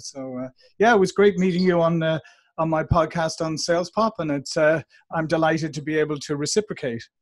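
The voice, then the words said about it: Warm Irish accent. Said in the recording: “he has a warm, familiar accent ... as you can tell from my accent, I'm originally from Dublin, Ireland”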